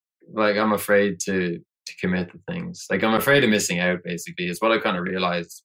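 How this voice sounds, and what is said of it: Calm, relaxed Irish accent. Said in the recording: “Irish Frank ... he was so relaxed and so calm ... his accent was beautiful”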